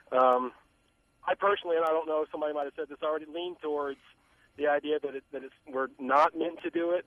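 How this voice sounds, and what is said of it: Southern American drawl. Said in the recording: “good Southern drawl”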